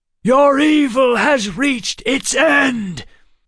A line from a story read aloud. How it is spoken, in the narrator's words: Waylon shouted